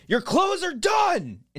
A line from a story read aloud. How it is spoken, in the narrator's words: yell it out